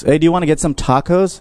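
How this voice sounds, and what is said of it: Put-on American accent. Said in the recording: “Your American accent is on point... Oh, it's good”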